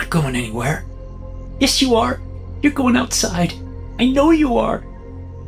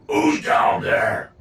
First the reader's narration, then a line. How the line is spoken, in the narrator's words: Dad shouted from upstairs